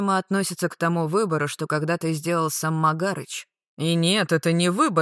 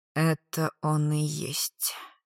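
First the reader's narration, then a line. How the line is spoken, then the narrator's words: Quiet. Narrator (Russian): тихо сказал рикошет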